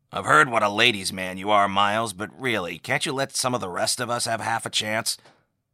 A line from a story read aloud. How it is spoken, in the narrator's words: Roe with a chuckle